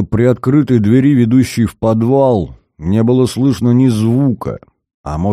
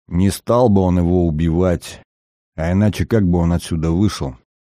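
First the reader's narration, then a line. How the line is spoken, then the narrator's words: Undertone. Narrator (Russian): сказал Зверев вполголоса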